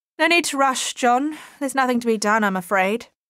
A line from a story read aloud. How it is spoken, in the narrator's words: she called out to him